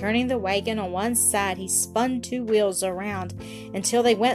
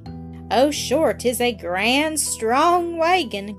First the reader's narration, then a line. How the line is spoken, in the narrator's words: cried Mike